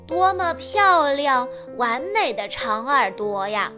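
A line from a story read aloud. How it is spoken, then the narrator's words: Little rabbit loudly admiring. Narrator (Chinese): 小兔子大声地赞叹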